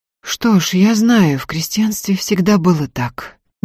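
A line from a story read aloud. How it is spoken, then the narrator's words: Uncertain agreement. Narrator (Russian): неуверенно согласился Закатов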